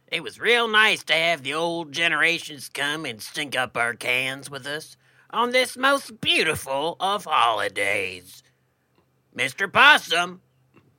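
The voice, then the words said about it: Radio announcer voice and cadence. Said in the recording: “radio voice thing ... it's a little uh, jarring ... you sound like you're wrapping up a segment every sentence that you say now ... that cadence”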